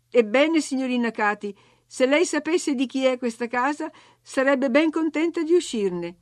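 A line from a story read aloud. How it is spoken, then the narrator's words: Exasperated shout. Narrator (Italian): al colmo della sopportazione, gridai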